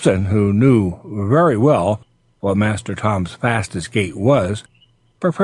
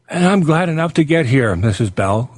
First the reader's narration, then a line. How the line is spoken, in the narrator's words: cried Tom